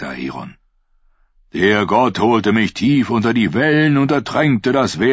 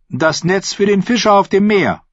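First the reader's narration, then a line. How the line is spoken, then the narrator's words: Calling out. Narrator (German): rief Rus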